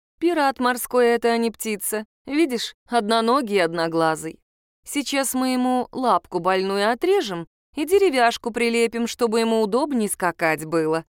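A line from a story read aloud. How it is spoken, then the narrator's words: Plain. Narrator (Russian): сказала Мара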